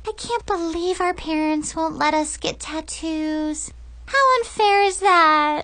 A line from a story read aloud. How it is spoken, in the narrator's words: Chloe whined